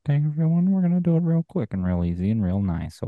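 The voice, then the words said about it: Uncomfortable, zipper-like character voice. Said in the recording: “Is this like a very uncomfortable character?... Is that a new character?... You sound like a zipper being unzipped.”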